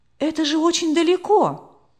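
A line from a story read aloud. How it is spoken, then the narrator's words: Exclaiming. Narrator (Russian): воскликнула она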